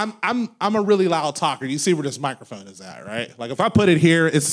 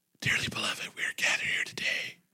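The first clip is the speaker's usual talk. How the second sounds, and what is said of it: Hoarse, nearly voiceless speech. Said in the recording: “lose my voice, okay? I have laryngitis. ... I don't have a voice ... Sound like a thriller”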